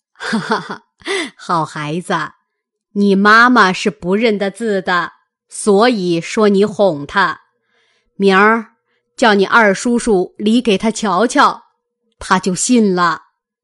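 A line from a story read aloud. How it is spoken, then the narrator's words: Laughing. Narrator (Chinese): 贾母听了笑道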